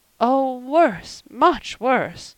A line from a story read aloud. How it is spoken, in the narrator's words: moaned Mrs